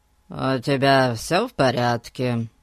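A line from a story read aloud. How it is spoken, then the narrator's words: Casual tone. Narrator (Russian): Небрежным тоном обратился он к Фати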